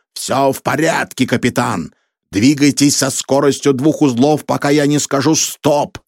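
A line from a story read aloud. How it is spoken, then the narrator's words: Shouting into phone. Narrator (Russian): фанатик крикнул в трубку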